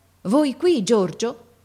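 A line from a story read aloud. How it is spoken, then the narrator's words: Father, amazed tone. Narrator (Italian): mio padre che dice in tuono di meraviglia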